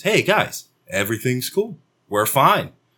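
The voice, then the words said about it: Soft, gentle soothing voice. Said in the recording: “talk to them in a real soft voice.”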